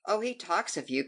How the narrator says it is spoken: cried Charles

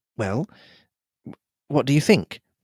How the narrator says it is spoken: I asked feebly

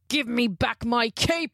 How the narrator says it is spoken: He roared

